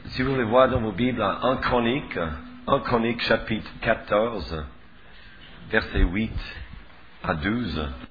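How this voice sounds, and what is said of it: Very thick accent. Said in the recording (French): “j'ai un accent plus épais que le sirop d'érable”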